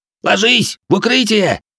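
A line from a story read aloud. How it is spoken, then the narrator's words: Shouting. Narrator (Russian): крикнул Инь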